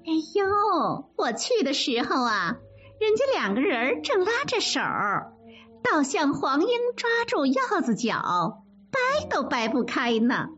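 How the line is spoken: Teasing. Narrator (Chinese): 凤姐取笑他们

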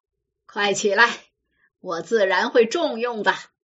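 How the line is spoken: Laughing. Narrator (Chinese): 西门庆笑了

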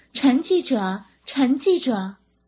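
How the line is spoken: Calling out. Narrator (Chinese): 他们不时用手掌卷成喇叭筒，罩住嘴巴四下叫喊

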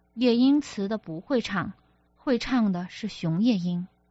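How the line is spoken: Cold. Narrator (Chinese): 楚慎明冷冷道

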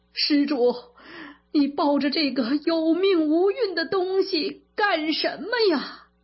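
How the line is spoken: Monk wailing loudly. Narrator (Chinese): 癞头和尚见他抱着女儿，就大哭起来

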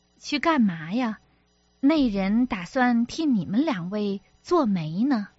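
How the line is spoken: Laughing. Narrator (Chinese): 笑道

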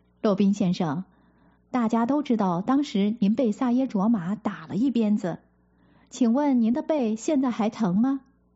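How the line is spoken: Laughing question. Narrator (Chinese): 有人笑着问

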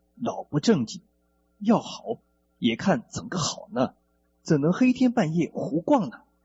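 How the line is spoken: Cheerful, grinning. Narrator (Chinese): 德顺老汉笑嘻嘻地对脑性性的玉德老汉说

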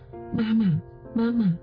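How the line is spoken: Holding back tears. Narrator (Chinese): 想哭，又想到了爸爸说要乖，不能哭，他忍住带着哭腔说

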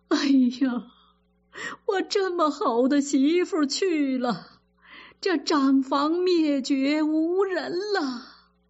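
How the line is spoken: Sobbing. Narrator (Chinese): 贾珍哭得像泪人一般

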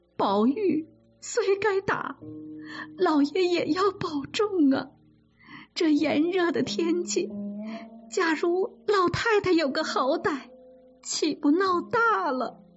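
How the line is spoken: Tearful pleading. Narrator (Chinese): 王夫人哭着劝

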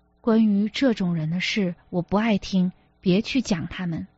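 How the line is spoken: Suppressed trembling resentment. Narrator (Chinese): 洪建忽然恨唐小姐，恨得心像按在棘刺上的痛，抑制着声音里的战栗说

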